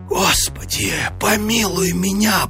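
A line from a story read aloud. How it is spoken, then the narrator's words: Terrified whisper. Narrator (Russian): прошептал он в смертельном испуге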